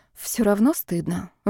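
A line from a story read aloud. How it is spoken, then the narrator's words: Sighing. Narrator (Russian): вздохнула она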